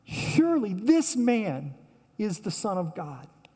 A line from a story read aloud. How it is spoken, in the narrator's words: the Roman who put him there cried out